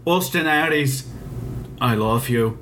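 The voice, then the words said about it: Put-on English accent. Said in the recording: “With that English accent”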